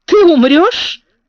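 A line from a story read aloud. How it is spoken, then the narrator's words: Stern and joyful. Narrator (Russian): сказал он сурово и радостно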